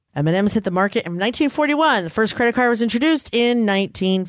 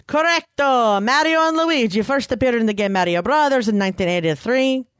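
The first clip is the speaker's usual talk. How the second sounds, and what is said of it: Put-on Italian accent. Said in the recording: “I like your Italian accent.”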